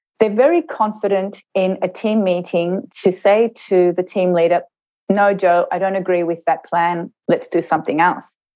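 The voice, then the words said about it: Australian accent. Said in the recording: “you can probably hear from my accent that I was brought up in Australia”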